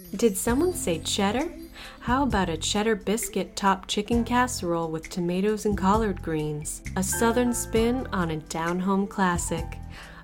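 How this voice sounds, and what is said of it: Smooth, creamy radio announcer voice. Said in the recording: “the dulcet tones of my creamy radio voice”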